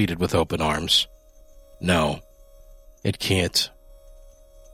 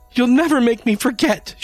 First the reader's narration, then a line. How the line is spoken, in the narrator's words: she screeched